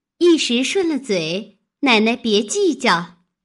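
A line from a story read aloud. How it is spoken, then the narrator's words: Embarrassed apologetic smile. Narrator (Chinese): 香菱反不好意思，忙陪笑道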